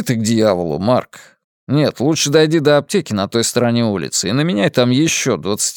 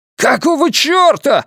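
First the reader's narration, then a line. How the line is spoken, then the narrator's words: Yelling. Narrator (Russian): завопил он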